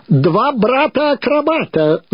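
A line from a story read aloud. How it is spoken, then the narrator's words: Booming shout. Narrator (Russian): зычно закричал он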